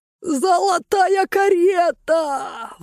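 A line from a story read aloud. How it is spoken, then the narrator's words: Gang howling behind. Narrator (Russian): взвыла шайка за моей спиной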